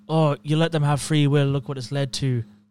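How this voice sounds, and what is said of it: Put-on Irish accent. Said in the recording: “That's my Barry Keoghan accent ... he's a different kind of Irish”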